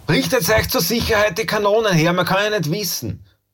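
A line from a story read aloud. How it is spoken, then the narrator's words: Called out. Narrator (German): rief der Griesfranz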